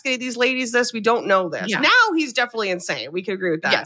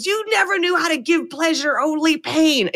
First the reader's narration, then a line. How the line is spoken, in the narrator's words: Crawford screams